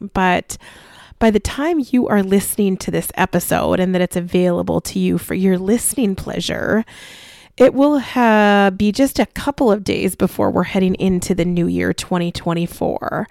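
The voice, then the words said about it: Slightly scratchy, recovering voice. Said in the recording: “I am talking with you today with a voice that has a little bit of a scraggle to it. I have been a little bit under the weather ... my voice is recovering”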